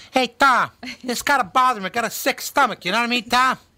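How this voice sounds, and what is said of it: High chipmunk voice imitating another person. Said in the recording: “in a chipmunk tone ... He sounded like Joe Pesci”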